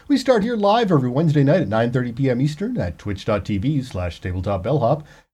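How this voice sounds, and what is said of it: Smooth mellifluous radio voice. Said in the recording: “you have a mellifluous radio voice”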